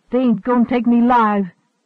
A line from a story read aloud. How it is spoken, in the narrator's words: she yelled